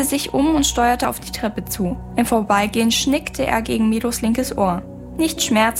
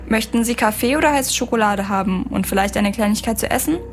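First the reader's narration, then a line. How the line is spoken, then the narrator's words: Plain. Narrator (German): fragte er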